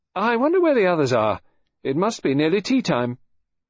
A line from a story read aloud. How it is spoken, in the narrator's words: She said in a cheerful, determined voice